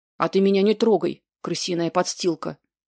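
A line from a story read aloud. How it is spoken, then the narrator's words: Barked. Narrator (Russian): рявкнул Энлот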